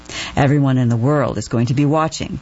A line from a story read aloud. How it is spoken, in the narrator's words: Trump said